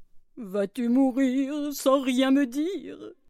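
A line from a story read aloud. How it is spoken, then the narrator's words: Sobbing question. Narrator (French): demande-t-il à sa fille en sanglotant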